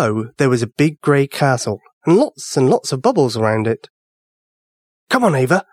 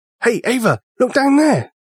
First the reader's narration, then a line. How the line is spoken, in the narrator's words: Sean yelled